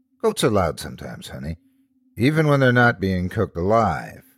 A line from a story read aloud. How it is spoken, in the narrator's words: I replied, chuckling